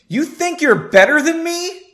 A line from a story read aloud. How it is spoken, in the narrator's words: Devon yelled inches from Henry's face